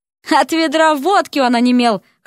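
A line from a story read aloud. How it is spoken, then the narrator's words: Chuckle. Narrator (Russian): хохотнул император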